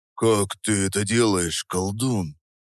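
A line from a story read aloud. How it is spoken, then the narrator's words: Admiring conspiratorial whisper. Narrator (Russian): спросил с неподдельным восхищением, понизив голос до заговорщицкого шепота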